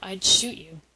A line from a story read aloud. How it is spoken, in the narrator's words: he muttered to himself